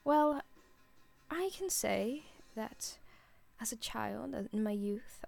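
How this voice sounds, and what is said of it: Bad put-on British accent. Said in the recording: “I have such a bad British accent ... This is so bad. I can't, it's not even a British accent, man. I'm so bad at voices.”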